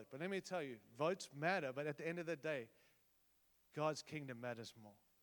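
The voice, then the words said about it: Noticeable non-American accent. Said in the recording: “I have an accent, but I'm American”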